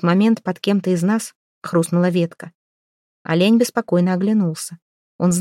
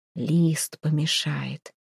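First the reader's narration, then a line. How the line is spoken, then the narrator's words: Father's whisper. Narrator (Russian): прошептал отец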